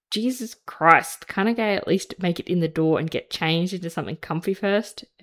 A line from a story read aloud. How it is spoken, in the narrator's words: Ed groans